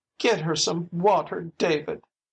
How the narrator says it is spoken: sobbed her mother

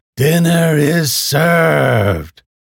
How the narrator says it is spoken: the nun shouted

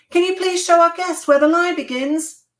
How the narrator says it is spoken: Avital shouted

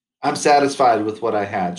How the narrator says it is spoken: she said

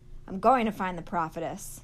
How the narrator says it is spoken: she said loudly

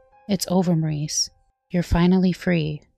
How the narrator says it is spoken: said Ed

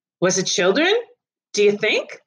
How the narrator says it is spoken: said another

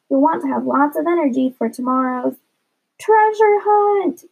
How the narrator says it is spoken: screamed Judy and Sink at the same time

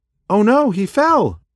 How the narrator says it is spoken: yelled Dash, scared for her little brother

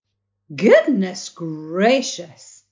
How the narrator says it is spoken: exclaimed Mrs

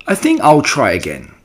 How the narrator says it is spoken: said Wilbur cheerfully

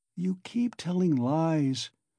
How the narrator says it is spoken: he said slowly and weakly

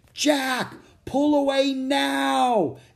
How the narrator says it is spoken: Annie shouted again

